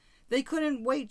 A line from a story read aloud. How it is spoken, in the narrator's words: she cried